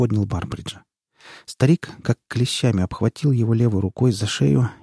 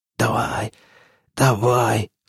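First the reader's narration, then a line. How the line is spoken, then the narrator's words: Hoarse wheeze. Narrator (Russian): хрипел Барбридж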